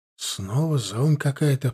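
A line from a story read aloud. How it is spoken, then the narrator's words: Muttering under breath. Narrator (Russian): пробормотал себе под нос Стас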